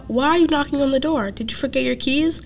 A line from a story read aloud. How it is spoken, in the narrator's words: the boy called out